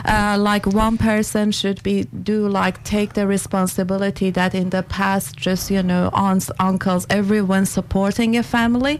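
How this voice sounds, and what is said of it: Foreign accent in English. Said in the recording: “I'm detecting an accent there”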